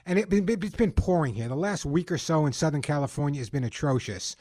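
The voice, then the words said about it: Long Island New York accent. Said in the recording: “you can tell by my accent, it's not where I was born and raised... Not so bad when you grew up on Long Island like I did”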